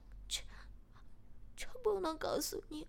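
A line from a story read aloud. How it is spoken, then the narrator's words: Crying. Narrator (Chinese): 小苗哭了起来，并说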